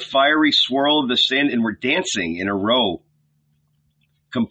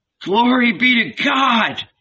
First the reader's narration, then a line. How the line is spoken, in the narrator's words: he exclaimed with emotion